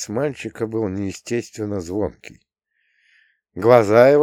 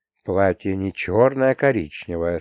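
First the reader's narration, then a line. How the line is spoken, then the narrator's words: Soothing tone. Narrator (Russian): сказала Анечка умиротворяющим тоном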